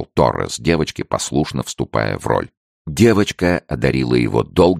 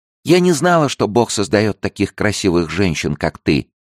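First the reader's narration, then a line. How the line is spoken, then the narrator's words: Girl's tender little voice. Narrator (Russian): сказала девочка своим нежным голоском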